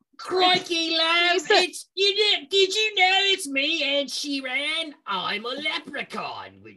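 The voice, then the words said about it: Put-on leprechaun accent, Australian-sounding. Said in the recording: “Were you about to have a leprechaun accent come out? ... That's like weird Australian leprechaun vibes. ... No, I'm Scottish.”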